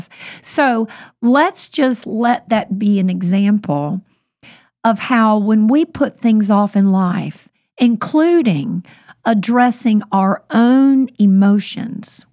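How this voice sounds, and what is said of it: Weak, recovering voice. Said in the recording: “kind of lose my voice after a really long dental process. I'm not sick at all, but my voice is bit by bit getting stronger after almost losing it completely”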